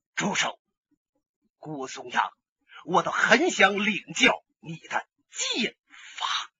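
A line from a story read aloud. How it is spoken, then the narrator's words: Icy voice. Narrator (Chinese): 一个人走过来了，声音冰冷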